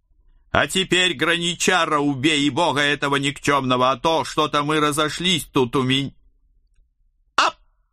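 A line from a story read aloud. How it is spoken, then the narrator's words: Sudden loud shout. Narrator (Russian): Неожиданно громко крикнула Хельга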